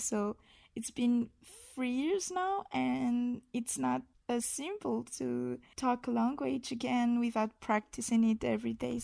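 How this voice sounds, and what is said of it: Non-native English accent. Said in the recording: “I don't always have the occasion to talk in English ... if my accent is really unbearable”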